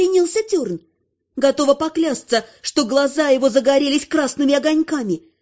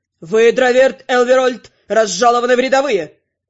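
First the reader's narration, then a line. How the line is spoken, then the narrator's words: Hearty bark. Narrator (Russian): От души рявкнул Терн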